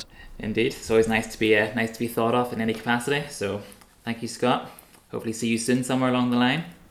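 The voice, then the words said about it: Northern Irish accent. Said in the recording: “the accent certainly, you were born in Northern Ireland, brought up and raised in County Antrim”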